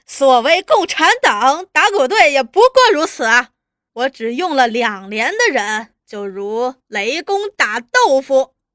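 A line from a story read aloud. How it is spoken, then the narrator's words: Loud laughter. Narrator (Chinese): 朱大同就放声大笑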